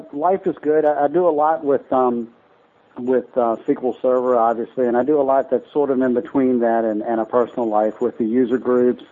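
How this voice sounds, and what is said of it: Rural country accent. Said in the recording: “I grew up in the country. That's why I talk this way. I'm not faking this accent. This is really how I talk.”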